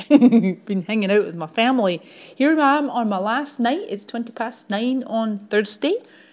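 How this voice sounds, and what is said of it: Thick Scottish accent. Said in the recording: “my accents are really thick and Scottish”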